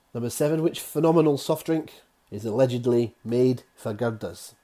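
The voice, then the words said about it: Poorly done regional accent. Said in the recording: “That's going to upset people in a certain part of the country with my bad accent there.”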